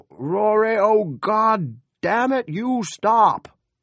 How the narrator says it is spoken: his father bawling

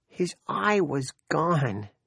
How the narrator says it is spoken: she cried

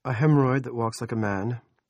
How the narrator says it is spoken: Rusty said

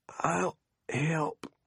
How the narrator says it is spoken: he wheezed

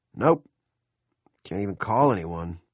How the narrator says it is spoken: Gendron said gloomily

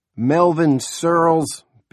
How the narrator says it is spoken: Big Jim boomed

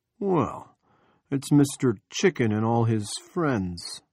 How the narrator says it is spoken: Andy said in a passable John Wayne drawl

